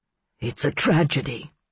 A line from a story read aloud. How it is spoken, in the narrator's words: he said in a rough, low voice